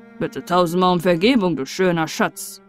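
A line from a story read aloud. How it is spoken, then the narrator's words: Calling out. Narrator (German): rief der Kamerad der Taube zu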